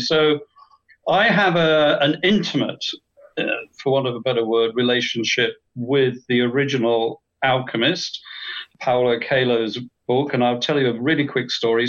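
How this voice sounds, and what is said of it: Distinct English accent. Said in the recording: “I have a very distinct English accent, not Australian”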